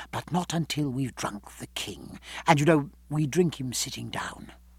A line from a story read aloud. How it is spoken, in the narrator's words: whispered Reed, smiling at her